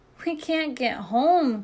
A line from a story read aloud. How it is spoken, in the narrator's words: cried the ants